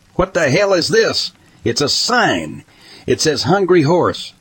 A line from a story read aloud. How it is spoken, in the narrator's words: yelled